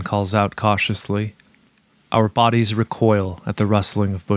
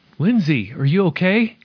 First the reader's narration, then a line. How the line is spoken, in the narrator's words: exclaims as we rush over to her